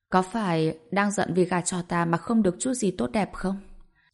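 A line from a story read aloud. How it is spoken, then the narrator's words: Gentle question. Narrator (Vietnamese): Chàng nhẹ nhàng hỏi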